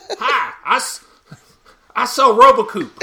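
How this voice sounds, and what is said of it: Schmucky salesman voice. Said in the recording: “The default, like, schmucky salesman voice is just perfect. ... It's got a little Tiger King in it.”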